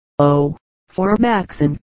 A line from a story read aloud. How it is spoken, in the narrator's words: Charlie sighed